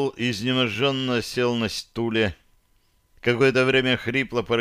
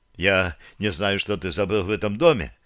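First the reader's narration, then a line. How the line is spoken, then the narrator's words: Rapid chatter. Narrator (Russian): быстро затараторил Румнул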